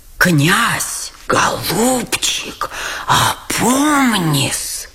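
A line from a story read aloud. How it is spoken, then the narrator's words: Horrified whisper. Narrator (Russian): с ужасом шепнул генерал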